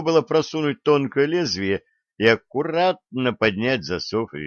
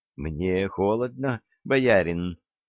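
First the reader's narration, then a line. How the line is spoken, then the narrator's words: Heated whisper. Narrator (Russian): горячий шепот Рады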